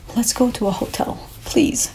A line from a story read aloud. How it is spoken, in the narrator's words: I pleaded with Alberto